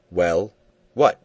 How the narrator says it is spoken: said roughly

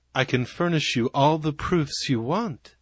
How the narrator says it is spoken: said Carter gently

